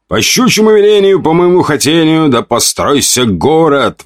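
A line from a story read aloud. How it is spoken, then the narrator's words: Exclamation. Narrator (Russian): воскликнул я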